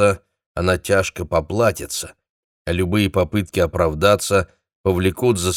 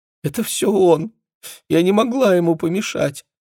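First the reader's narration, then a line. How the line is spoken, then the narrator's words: Whimpering. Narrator (Russian): хныкала Джессика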